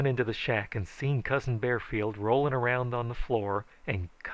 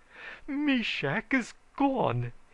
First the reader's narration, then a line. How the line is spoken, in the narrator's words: he howled